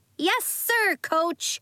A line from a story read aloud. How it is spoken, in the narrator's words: they shouted